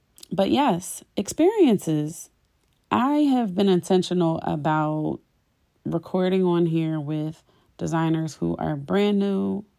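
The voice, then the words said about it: Raspy voice. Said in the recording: “I am a little under the weather and I'm sure my voice is pretty raspy.”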